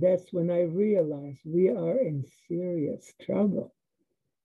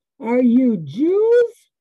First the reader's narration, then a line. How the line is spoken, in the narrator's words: he yelled